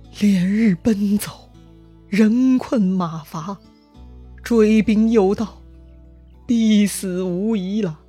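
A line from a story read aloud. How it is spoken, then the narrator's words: Sighing. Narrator (Chinese): 他叹息道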